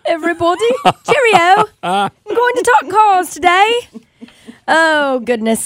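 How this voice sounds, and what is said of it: Put-on British English accent. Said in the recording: “Did you bring in a British accent with you? ... Do an English accent ... That's not bad.”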